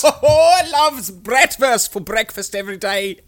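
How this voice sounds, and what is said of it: Fake German accent. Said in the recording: “the German pool boys... We'll need to work on our fake accents... Are our fake accents”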